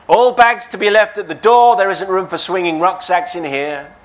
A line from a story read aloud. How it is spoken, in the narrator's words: She called out